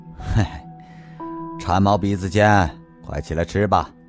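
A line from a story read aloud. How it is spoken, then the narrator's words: Wry, bitter smile. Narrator (Chinese): 方志国苦笑着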